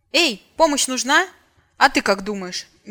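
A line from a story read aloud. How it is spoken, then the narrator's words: Sudden fierce bark. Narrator (Russian): неожиданно свирепо рявкнула вампирка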